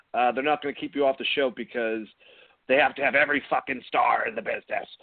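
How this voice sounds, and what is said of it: Poor imitation of another person's voice. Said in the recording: “That was a horrible impression of modern Vince. I can't do modern Vince”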